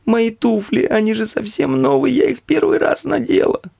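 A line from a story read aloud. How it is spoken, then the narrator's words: Shrieking woman. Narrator (Russian): Завизжала женщина в золотистых замшевых туфлях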